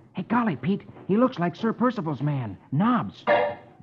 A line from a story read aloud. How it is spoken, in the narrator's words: Rusty exclaims